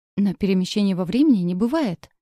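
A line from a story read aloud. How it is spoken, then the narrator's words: Vexed self-convincing exclamation. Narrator (Russian): с досадой воскликнул он, словно убеждая самого себя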